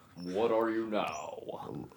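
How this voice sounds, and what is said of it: Announcer voice. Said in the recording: “with like the announcer voice”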